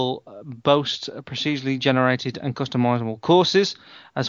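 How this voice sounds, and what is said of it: Usual voice. Nothing is said of it.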